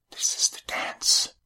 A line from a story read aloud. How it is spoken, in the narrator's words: she whispered